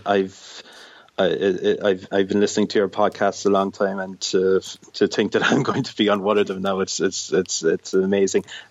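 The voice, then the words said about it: Irish accent. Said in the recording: “hopefully your listeners will be able to discern the Irish accent fairly okay”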